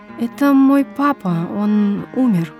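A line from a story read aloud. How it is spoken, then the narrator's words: Sad answer. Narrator (Russian): грустно отвечала я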